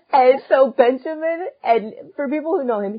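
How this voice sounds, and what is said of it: Usual voice. Nothing is said of it.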